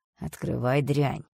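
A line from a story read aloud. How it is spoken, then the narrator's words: Demonic growl. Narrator (Russian): рыкнул демон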